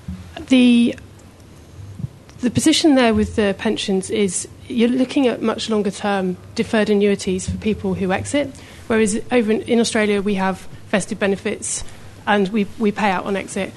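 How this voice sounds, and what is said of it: UK accent. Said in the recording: “a bit of background on the UK ... Clearly, I can't hide my accent.”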